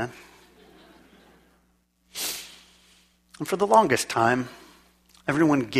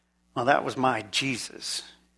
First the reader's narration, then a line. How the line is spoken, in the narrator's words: she said